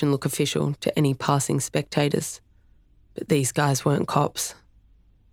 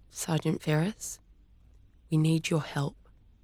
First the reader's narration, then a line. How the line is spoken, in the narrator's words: said quietly, her lips barely moving